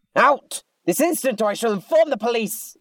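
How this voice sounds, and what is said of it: Loud shouting. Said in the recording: “stop shouting. It's loud.”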